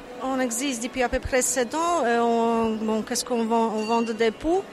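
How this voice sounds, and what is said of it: Polish accent in French. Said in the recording (French): “On entend beaucoup à votre accent que vous êtes de Pologne”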